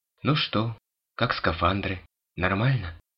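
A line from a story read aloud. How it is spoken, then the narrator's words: Timid question. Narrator (Russian): робко спросила Марион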